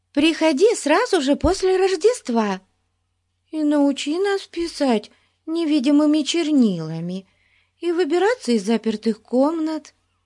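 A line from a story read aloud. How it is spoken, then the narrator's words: Pleading. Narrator (Russian): взмолилась Бетси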